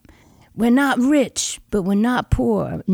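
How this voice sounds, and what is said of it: Put-on New York accent. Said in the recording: “Now I'm hearing you do your father's accent. So he was a New York guy.”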